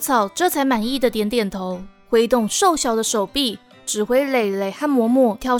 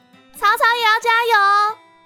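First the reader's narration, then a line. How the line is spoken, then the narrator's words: Laughing call. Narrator (Chinese): 渊羽就又笑着叫了一句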